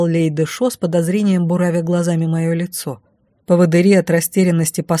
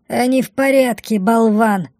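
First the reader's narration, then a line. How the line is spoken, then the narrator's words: Snorting. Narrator (Russian): фыркнула Бумба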